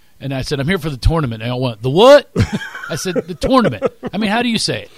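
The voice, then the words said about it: Philadelphia accent. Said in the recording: “if you couldn't tell from my accent. People make fun of my accent in Texas ... I think Philly's right on this one”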